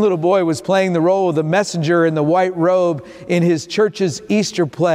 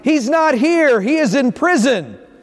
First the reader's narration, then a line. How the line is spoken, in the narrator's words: the boy announced quite boldly and loudly